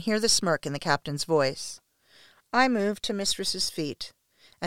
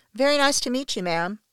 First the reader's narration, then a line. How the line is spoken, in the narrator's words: I say, my voice trembling and my body now vibrating like an aspen leaf in the wind